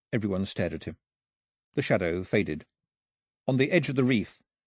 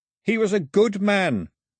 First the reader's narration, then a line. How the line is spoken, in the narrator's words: he shouted to the sky